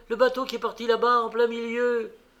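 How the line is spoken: Exclaiming. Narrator (French): s'écrie

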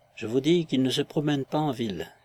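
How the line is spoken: Timid insistence. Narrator (French): insista timidement l'Alsacienne

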